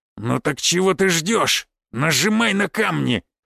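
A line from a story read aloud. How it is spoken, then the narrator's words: Growled. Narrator (Russian): прорычал Аракчеев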